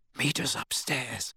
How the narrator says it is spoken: Harry whispered to Hermione

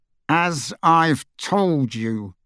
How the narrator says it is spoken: he said through gritted teeth

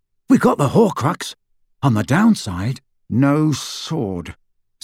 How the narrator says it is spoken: said Harry through gritted teeth

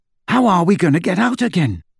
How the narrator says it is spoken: Ron asked, as they hurried on foot into the darkness

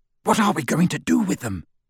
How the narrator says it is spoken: Ron whispered to Harry through the dark

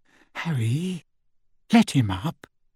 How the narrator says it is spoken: Hermione whispered

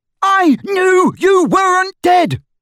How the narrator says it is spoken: bellowed Ron, drowning her voice for the first time

